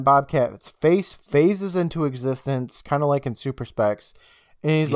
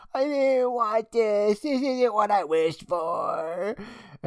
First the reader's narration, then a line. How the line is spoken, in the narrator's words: she starts screaming and whining, saying